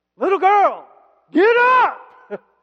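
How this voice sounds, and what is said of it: Raised, loud voice. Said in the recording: “Usually, what you do is you raise your voice, right?”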